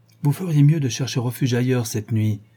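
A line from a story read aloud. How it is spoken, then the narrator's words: Triumphant exclamation. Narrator (French): m'écriai-je d'un ton plutôt triomphant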